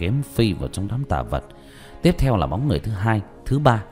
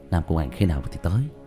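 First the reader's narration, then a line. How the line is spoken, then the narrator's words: Sighing question. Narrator (Vietnamese): Diệp Thiếu Dương thở dài hướng Nhuế Lãnh Ngọc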